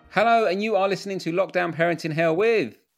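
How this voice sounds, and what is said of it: Toddler with Icelandic accent. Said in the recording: “you might have picked up on an accent... That is an Icelandic toddler doing our intro... he's sounding French”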